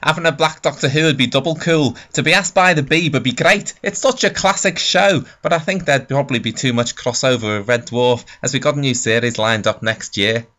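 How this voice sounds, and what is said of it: Liverpool accent Craig Charles impression. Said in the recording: “Can I try a Craig Charles impression? ... That was my Liverpool accent. It'll do for Craig Charles.”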